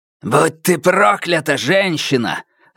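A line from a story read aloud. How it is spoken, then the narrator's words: Barked. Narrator (Russian): рявкнул Фаразар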